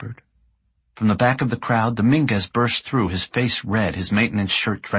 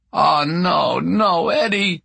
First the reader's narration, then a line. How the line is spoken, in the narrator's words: he moaned